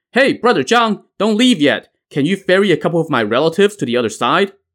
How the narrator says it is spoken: Wang Dingliu now called out to him

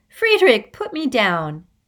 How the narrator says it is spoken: Father laughed

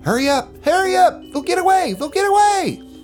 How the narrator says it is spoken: the little boy about maybe 100 yards away pointing and yelling

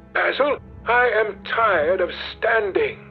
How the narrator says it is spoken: cried Dorian Gray suddenly

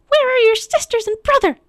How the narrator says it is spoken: she snapped, her breath forming icicles

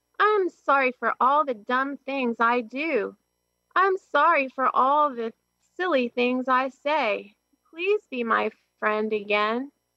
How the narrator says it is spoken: cried Toad

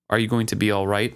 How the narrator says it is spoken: I asked flatly

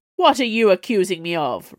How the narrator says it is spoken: roared

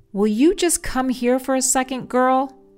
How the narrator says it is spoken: He yelled down the hall

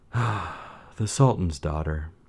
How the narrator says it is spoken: said gloomily

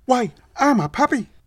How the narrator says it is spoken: The puppy piped up happily

